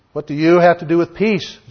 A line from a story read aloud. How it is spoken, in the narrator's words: Jehu replied